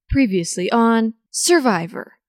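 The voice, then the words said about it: Pretty good Jeff impression, Survivor recap. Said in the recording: “your Jeff impression ... That's pretty good.”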